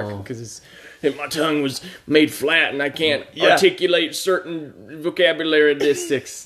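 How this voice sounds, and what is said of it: Poor Kevin Costner impression. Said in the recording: “we're not doing very good Kevin Costner impersonations”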